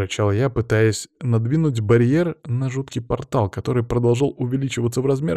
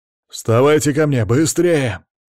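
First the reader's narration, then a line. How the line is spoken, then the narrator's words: Shouting over the wind. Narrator (Russian): закричал Иван, перекрывая свист бушующего вихря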